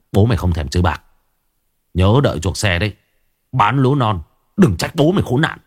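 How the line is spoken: Hissed through teeth. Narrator (Vietnamese): Tài mão chó rít qua kẽ răng

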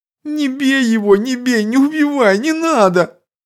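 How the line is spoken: Whimpering plea. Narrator (Russian): скулящим голосом взмолился

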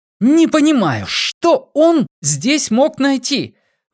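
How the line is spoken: Desperate yelling. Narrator (Russian): В отчаянии заорал Эдмундс

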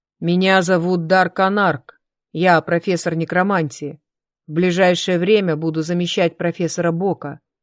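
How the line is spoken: Deep muffled voice. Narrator (Russian): проговорил он на удивление глубоким, глухим голосом

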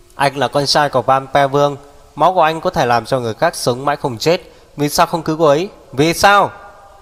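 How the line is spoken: Loud angry shout. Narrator (Vietnamese): Tề Tu lớn tiếng quát

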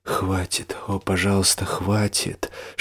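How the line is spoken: Tearful desperate whisper. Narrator (Russian): шептал Джеймс, по щекам которого катились слезы отчаяния

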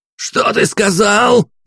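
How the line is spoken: Yelling, nearly shrieking. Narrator (Russian): Едва не сорвавшись на виск, завопил Иван, брызжа слюной

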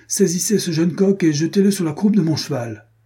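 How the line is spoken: Shouting. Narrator (French): cria-t-il

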